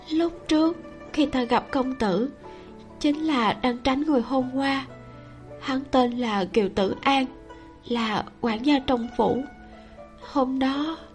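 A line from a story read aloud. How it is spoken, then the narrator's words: Slightly trembling voice. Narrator (Vietnamese): giọng nói hơi run run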